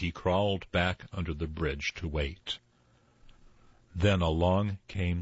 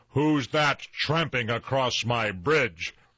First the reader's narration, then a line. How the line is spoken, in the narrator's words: roared the troll, even louder than before